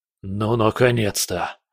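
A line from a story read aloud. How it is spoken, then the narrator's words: Exhaled, relieved. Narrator (Russian): выдохнул Борис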